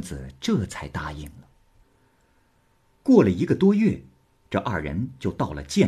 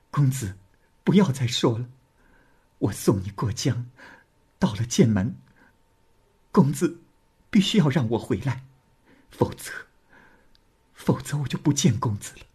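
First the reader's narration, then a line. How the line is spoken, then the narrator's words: Crying. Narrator (Chinese): 李娃哭着说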